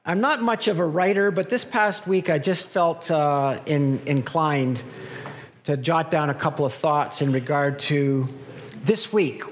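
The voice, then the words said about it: Weak, strained voice. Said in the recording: “my voice is not really strong today, but I'll talk as loudly as I can”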